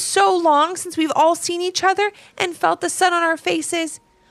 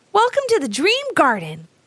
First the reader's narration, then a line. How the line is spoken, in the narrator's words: exclaimed Rocco